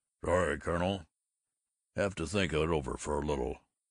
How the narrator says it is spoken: he mumbled

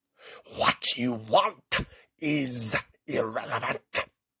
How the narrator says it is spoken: another voice menacingly threatened

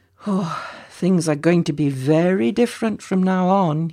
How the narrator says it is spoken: he sighed happily

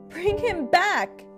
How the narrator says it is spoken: shouted

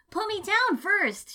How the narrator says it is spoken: she shouted

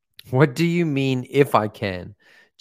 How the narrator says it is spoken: Jesus asked

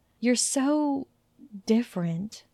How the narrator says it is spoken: she whispered

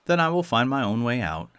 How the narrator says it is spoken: answered the youth

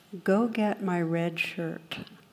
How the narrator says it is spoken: captain replies very calmly

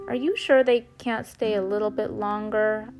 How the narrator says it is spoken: I whined

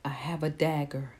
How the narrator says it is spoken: I whispered to Bear

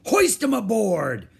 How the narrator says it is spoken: Captain Bones shouted to his men

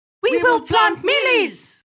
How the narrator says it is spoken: shouted the monkeys all together

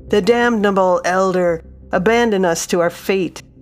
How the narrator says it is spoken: men yelled at him in shock of discovering one among them all this time

